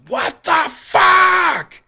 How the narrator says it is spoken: I scream at the top of my lungs

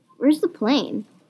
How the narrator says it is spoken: asked

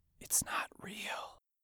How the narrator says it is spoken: He whispers

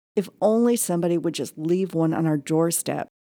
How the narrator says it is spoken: blurting

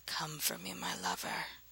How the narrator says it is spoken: whispered

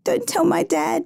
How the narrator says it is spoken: pleaded

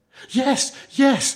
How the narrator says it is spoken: they answered eagerly

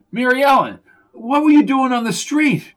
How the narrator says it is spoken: face flushed and she choked out the words

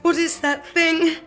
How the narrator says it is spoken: gasped

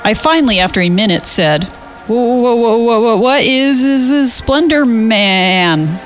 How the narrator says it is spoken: He chuckled

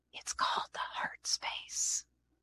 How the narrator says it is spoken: She bent forward to whisper in my ear

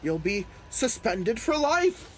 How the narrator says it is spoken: she sputtered

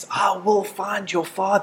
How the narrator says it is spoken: he screams at this little boy and he says

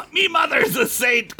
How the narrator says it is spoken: Clarence shouted

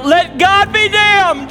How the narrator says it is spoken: they are screaming out

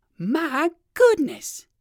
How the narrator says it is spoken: exclaimed Uncle Wiggily

